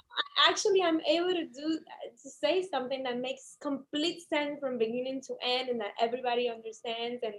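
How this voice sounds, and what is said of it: Heavy accent. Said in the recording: “my huge accent”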